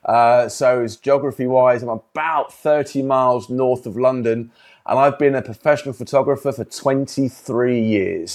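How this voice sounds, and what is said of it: English accent. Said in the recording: “I'm based here in England. If you can probably tell by the accent”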